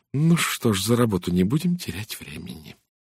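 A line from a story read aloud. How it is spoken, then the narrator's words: Sighing, to herself. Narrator (Russian): вздохнув, сказала себе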